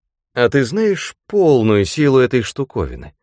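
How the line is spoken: Plain. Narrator (Russian): спросил

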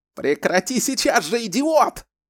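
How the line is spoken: Yelled. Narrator (Russian): заорал Джеймс

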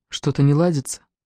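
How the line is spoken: Quiet speech. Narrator (Russian): Элиза тихо сказала

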